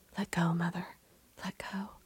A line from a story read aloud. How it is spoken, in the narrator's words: whispering once again